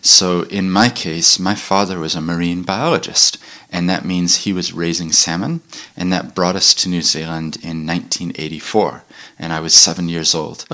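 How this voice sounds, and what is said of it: Noticeable non-New Zealand accent. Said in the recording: “the moment I open my mouth, people hear an accent ... despite the accent, I actually grew up in New Zealand”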